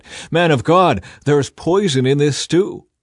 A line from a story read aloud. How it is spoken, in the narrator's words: they cried out